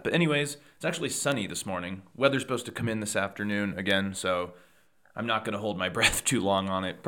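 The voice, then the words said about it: Slightly hoarse voice. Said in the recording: “sorry if I sound a little hoarse. I think I have a little cold or some irritation ... if I sound a little bit hoarser”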